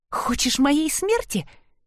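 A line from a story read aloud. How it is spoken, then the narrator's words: Hissing. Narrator (Russian): прошипела она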